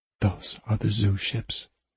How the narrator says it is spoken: Sophie whispered

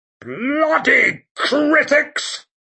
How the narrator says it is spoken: he boomed

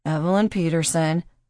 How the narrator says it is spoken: Paul inserted quietly

